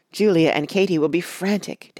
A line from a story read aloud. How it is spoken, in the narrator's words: Tacy cried